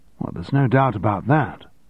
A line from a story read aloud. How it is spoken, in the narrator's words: said Stephen